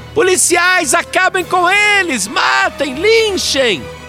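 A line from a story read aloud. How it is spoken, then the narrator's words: Frenzied shouting. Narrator (Portuguese): ela gritava mais do que torcedor fanático em dia de decisão de campeonato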